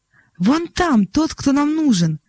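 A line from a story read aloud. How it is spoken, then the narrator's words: Exclamation. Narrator (Russian): воскликнул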